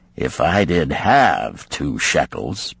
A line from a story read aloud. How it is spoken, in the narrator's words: Ban-Seir responded gloomily